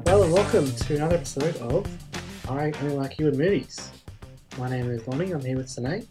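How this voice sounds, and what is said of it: Slightly off, unwell-sounding voice. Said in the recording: “My voice is a little bit funky at the moment ... I'm actually a bit under the weather”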